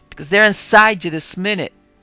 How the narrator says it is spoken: he went on, his voice rising almost a scream

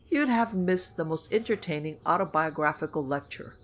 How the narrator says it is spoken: he chuckled

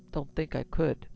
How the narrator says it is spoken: In a low, embarrassed voice, he said

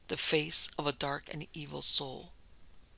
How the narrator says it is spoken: he replied in a low tone

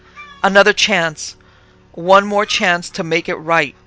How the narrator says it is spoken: The emptiness of his soul cried out

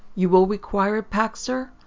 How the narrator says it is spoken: he asked, even a little hastily

